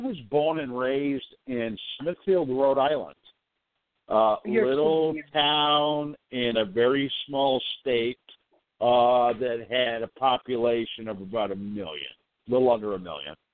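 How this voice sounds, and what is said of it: Slight regional American accent. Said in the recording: “You sound like you have a little accent there ... I've never lost my accent.”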